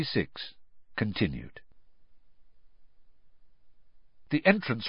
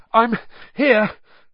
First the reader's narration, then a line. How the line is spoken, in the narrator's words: Harry panted